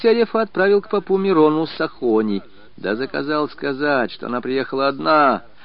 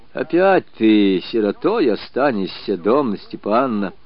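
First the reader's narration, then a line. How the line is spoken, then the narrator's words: Tender, pitying. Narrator (Russian): проговорил он ласково, жалея жену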